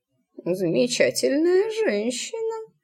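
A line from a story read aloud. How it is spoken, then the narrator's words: Absent-minded mutter. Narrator (Russian): рассеянно пробормотал Тритл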